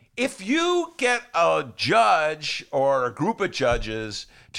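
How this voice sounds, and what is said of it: Usual voice. Nothing is said of it.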